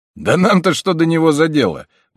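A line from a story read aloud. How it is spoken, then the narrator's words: Tall guard exclaiming. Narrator (Russian): воскликнул высокий стражник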